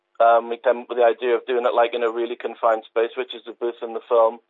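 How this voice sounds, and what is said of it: Slight northeast English accent. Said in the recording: “a slight northeastern accent ... Tyneside-based ... Wearside lad ... County Durham ... North Shields, born and bred”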